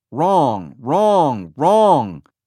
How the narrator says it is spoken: Fadell shouted at one meeting

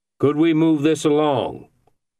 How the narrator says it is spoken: Beach said loudly, interrupting

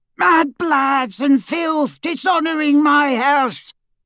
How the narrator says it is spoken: his yell

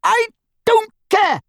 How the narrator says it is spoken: she screamed

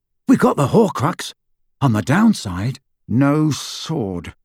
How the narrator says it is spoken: said Harry through gritted teeth

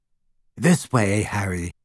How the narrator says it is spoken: breathed Luna

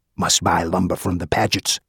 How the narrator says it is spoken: Baggy whispered

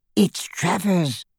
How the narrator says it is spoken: hissed the goblin into Harry's ear

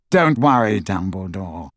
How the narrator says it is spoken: said coolly

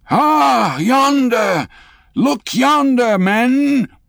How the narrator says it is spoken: cried a foreboding voice

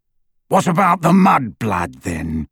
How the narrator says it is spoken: growled Greyback

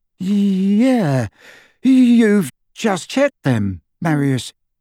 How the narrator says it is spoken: his companion, who said in a slightly dazed voice

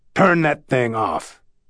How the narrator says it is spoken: Carl snapped

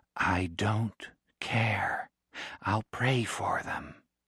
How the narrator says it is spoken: Very slowly, she said

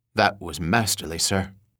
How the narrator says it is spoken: West whispered to him

